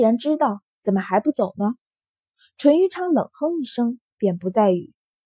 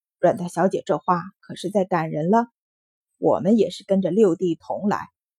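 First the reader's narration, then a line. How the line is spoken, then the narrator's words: Flat, indifferent. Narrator (Chinese): 淳于昌淡淡道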